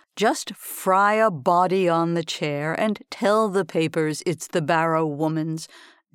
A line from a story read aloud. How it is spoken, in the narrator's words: drawled the governor's lawyer